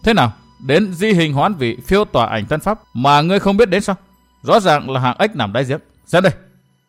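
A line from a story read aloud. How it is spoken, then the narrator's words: Arrogant, not angry. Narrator (Vietnamese): hắn tuy không tức giận nhưng lại cao ngạo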